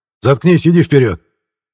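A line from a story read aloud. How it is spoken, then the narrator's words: Barking. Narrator (Russian): он рявкнул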